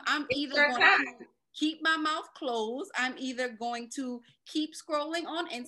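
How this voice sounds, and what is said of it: New Orleans accent. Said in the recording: “New Orleans? ... I heard that accent”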